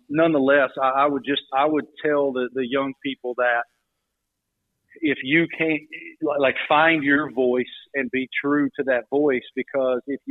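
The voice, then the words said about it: Southern American accent. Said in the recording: “young broadcast journalism students who have Southern accents ... well, that guy didn't ... question the authenticity of my accent too”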